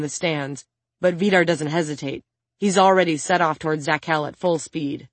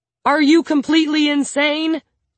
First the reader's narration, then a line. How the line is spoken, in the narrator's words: Tima yells at her